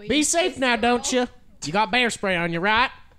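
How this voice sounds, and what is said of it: Switches into a put-on accent. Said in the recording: “The fucking accent switch.”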